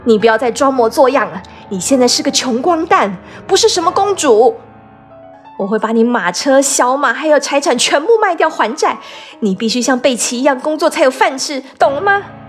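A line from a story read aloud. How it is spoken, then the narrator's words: Loud yelling. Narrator (Chinese): 明清女士大声吼道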